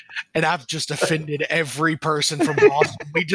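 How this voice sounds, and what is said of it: Usual voice. Nothing is said of it.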